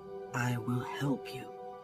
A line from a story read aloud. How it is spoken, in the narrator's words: whispered